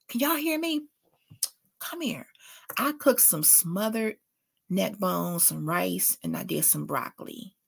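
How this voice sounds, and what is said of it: Whispering. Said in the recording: “Why am I whispering? ... I don't know why I'm whispering”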